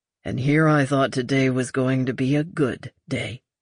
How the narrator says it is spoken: Lucas grumbled

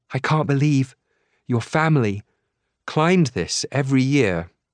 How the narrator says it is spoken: Annie says, panting

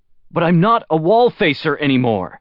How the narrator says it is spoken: Luoji shouted

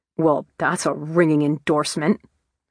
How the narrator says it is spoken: snorted Tony

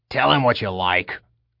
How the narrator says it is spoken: the gnome grunted

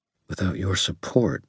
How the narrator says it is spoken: I said very quietly

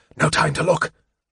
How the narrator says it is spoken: Raceland gasped

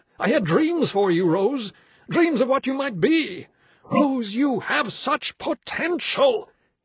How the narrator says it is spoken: He was roaring at her

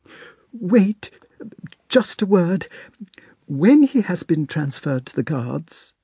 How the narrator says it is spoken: she faltered

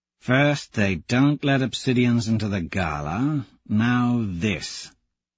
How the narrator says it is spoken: Tactus mutters

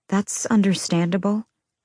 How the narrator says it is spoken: I said softly

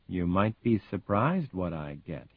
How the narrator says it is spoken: he says softly

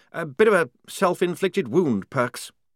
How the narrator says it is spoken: he said nervously

